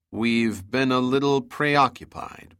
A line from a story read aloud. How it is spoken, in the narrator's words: Pitt said